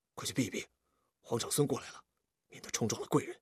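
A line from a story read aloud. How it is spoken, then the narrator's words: Soft voice. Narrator (Chinese): 有人轻声地对他们说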